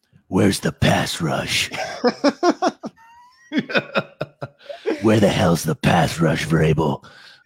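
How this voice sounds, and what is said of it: Gravelly Batman character voice. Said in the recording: “say this in your Batman voice.”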